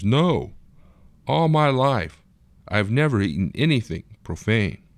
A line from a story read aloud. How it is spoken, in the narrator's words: Peter exclaims